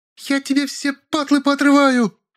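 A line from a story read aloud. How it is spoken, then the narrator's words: Shrieking. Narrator (Russian): визжала зайка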